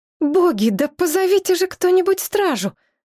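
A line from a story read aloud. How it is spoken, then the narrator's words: Exclamation. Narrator (Russian): воскликнула Шепсет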